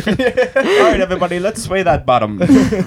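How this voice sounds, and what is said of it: Put-on German accent. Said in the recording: “You went real German with that accent”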